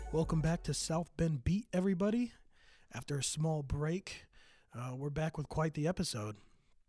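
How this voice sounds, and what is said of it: Scratchy, slightly hoarse voice. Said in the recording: “my voice is a little scratchy. Battling the back end of a cold”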